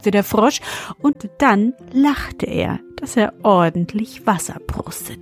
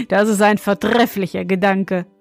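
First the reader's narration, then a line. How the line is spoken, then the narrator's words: Young man, laughing. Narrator (German): meinte der junge König und lachte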